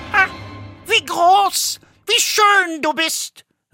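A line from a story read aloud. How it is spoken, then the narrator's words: Exclaimed. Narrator (German): rief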